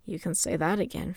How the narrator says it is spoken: Fumor muttered

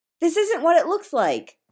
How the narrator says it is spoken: the doctor blurts

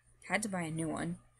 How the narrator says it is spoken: Michael mumbles

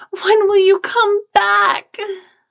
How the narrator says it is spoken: sobbed, crying into his coat

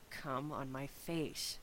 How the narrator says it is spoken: Shepard repeated in a low tone

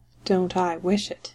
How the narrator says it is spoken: said in a low voice, sounding as if he were speaking to himself

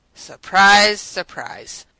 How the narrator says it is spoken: Radic said dryly in response

